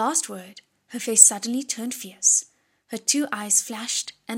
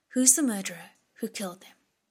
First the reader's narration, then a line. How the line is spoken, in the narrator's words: he asked